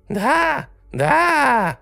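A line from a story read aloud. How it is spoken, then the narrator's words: Shrill little voice, distant. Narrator (Russian): Визгливый голосок донесся до меня из нашей спальни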